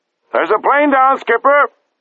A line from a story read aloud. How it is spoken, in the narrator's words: shouted one of the lookouts